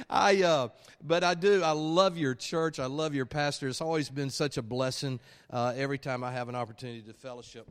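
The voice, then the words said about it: Alabama Southern US accent. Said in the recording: “my Alabama accent”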